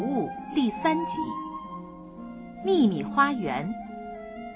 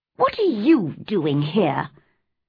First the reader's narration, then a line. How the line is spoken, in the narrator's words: asked crossly